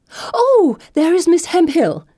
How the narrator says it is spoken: Chatterbox exclaims excitedly

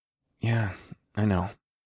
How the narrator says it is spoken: I said softly

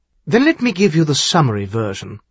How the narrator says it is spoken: Charlene said harshly

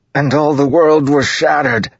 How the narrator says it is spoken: Maps yelled, back arching, eyes wide, flecks of red spittle on his cheeks

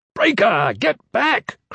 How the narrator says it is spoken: Kraxer shouted

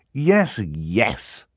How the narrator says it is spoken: Klaus said bitterly

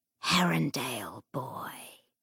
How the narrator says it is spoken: the demon said, in a voice like the last hiss of dying fire in a grate

